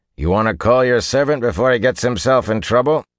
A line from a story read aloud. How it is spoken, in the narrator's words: he added to Matt, raising his voice